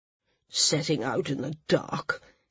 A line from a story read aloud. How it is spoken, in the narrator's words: Sina grumbled